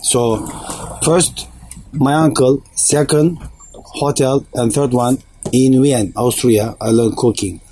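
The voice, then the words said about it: Strong foreign accent. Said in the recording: “the captain's accent is a little strong”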